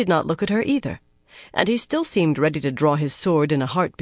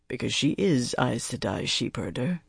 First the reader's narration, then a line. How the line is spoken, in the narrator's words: Lan replied quietly